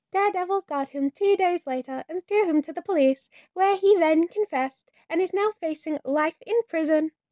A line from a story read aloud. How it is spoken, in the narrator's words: he chirps, and the satisfaction in his chest feels mean